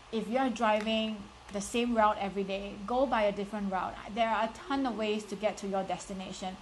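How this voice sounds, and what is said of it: Strong Singaporean accent. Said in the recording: “I'm from Singapore. I have a very strong and thick Singaporean accent ... I don't have an American accent. I don't have the British accent.”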